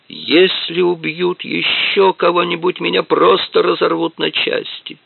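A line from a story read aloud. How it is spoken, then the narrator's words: Groaned. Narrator (Russian): простонал он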